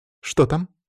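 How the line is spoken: Plain. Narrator (Russian): спросила Вика

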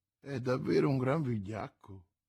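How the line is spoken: Innkeeper murmuring. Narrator (Italian): mormorò l'oste

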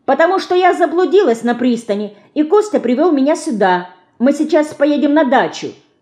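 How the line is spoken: Lively shout. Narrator (Russian): бойко выкрикнула Динка

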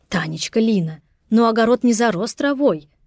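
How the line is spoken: Embarrassed exclamation. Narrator (Russian): воскликнула краснея Любовь Николаевна

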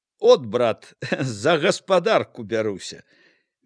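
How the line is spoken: Laughing. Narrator (Belarusian): Міканор засмяяўся

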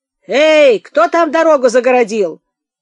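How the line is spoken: Barking shout from carriage. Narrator (Russian): рявкнул голос из исправничего экипажа

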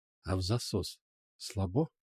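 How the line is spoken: Whisper. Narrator (Russian): шепнул ублюдок

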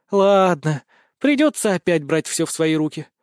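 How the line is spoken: Sigh. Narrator (Russian): вздохнула императрица

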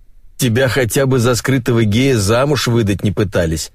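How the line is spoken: Laughing. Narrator (Russian): рассмеялась Райка

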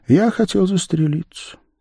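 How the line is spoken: Quiet, after a pause. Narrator (Russian): тихо сказал художник, помолчав

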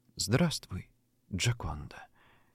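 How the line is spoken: Barely audible. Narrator (Russian): еле слышно молвит юноша

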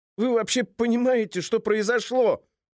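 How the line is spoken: Shouting into phone. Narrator (Russian): кричал в трубку цензор

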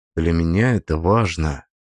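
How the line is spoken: Quiet. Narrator (Russian): добавил я тихо

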